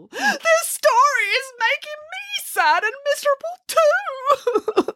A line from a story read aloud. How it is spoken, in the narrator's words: sobbed Boris